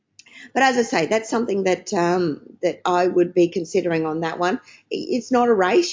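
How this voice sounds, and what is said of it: Croaky voice from a cold. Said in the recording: “I've got a little bit of a cold, so if I'm sounding a little bit croaky”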